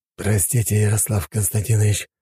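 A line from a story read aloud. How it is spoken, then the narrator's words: Serpent breathing out. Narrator (Russian): выдохнул змей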